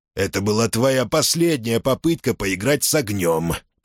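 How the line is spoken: Hiss. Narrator (Russian): прошипел он

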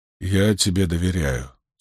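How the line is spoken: Quiet. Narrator (Russian): тихо молвил он

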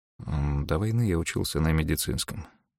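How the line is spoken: Muttered. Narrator (Russian): пробормотал Мэрил

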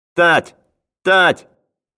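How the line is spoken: Boy shouting. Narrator (Russian): закричал первый мальчишка

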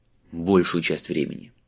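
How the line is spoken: Gloomy admission. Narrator (Russian): мрачно признался он

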